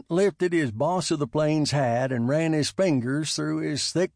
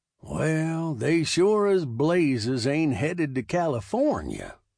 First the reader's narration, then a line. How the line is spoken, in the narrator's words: said in a Texas drawl that had a slight Scottish brogue